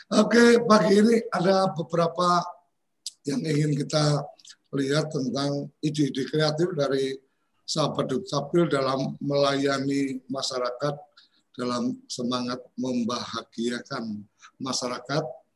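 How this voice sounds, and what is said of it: Hoarse, husky voice. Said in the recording (Indonesian): “maaf, suaranya lagi serak-serak basah”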